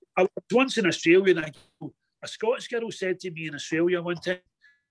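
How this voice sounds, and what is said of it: Glaswegian accent. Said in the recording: “I choose to speak the Glaswegian dialect”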